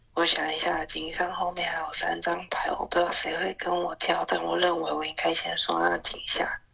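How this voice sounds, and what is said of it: Speaking very quietly, hushed. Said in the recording (Chinese): “我现在讲话很小声，因为其实我该睡觉了，可是我躲在房间里偷玩”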